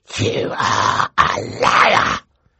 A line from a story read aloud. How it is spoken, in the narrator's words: he hissed at Violet